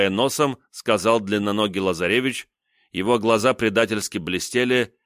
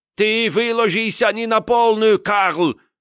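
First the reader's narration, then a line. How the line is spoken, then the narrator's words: Shout filling the room. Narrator (Russian): крикнул на всю комнату Лазаревич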